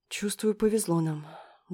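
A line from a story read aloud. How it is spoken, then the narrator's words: Sighing female friend. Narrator (Russian): вздохнула подруга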